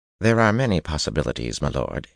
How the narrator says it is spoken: he said testily

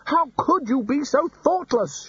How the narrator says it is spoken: shouted Ridcully

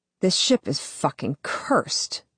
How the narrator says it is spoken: I mutter to myself

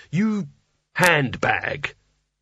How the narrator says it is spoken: growled

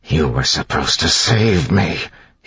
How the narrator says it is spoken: hissed

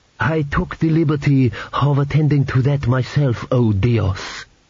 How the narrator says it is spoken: he purred

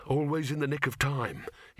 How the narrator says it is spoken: he muttered

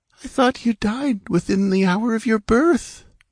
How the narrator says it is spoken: she said feebly

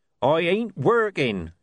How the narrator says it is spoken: shouted Coffin Henry

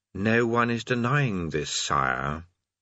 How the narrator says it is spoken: his voice, which said calmly

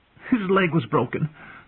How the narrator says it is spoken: Sansa replied eagerly

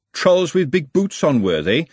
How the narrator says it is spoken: said Glenda, her voice all vinegar

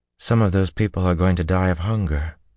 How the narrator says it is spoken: Min said sadly

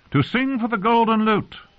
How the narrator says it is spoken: cried

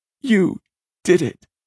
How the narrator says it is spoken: sobbed Winston

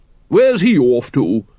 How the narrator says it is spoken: boomed Lady Ramkin

